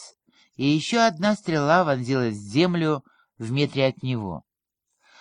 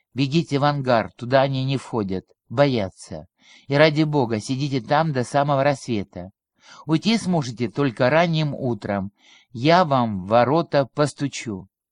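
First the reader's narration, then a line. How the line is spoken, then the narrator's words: Professor whispering. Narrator (Russian): Профессор пошептал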